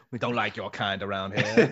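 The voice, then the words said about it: Put-on movie villain accent. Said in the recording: “I don't know what kind of accent that is. Like, I assume that's the way they speak down there. ... Just movie villains.”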